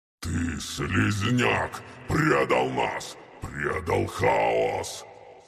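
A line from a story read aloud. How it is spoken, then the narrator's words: Growl. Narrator (Russian): прорычал он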